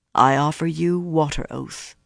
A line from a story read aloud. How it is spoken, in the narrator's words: said solemnly